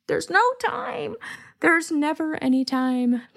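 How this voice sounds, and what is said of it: Bad impression of a TV character. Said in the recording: “my really bad Jesse Spano impression”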